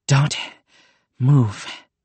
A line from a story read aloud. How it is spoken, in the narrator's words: panted the creature